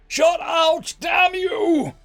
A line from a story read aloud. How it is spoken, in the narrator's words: I bellowed